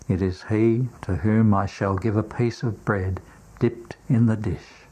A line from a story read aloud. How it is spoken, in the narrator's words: Jesus, in a very low voice, says